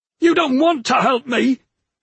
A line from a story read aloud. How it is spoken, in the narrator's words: screamed at her